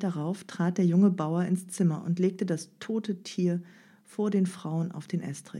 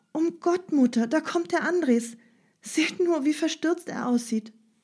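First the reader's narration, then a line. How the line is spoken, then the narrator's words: Called out. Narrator (German): rief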